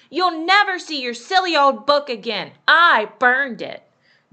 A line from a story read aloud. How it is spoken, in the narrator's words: Amy shouted